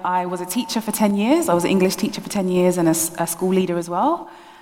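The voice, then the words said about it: London accent. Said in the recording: “a bit of my London accent”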